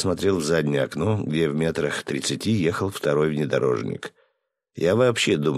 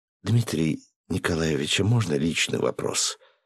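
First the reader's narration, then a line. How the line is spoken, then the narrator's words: Timid young woman asking. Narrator (Russian): робко спросила девушка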